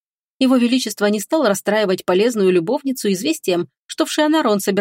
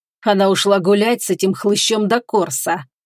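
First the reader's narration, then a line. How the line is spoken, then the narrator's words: Through clenched teeth. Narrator (Russian): сквозь зубы процедил он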